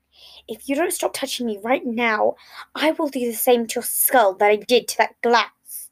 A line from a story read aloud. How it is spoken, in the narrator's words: Logan hissed out in return